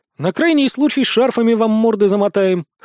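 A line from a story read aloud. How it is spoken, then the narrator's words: Snorting. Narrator (Russian): хмыкнул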